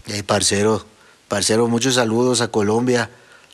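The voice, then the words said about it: Weak attempt at Colombian accent. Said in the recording (Spanish): “Ya me salió mejor, ¿no? ... imitando su acento, pero no lo hago porque parezco un árabe que fue a Colombia y que después se fue a vivir a Monterrey”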